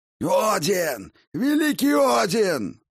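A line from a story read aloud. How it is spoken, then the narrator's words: Roaring. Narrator (Russian): взревел Фенрир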